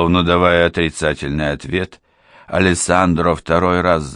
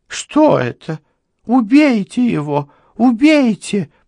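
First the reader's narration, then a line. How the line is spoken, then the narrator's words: Bellow then howl. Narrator (Russian): проорала Лорна и вновь взвыла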